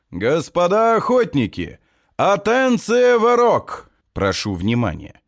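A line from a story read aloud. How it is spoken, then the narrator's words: Loud, well-trained voice. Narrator (Russian): Генри произносит хорошо поставленным громким голосом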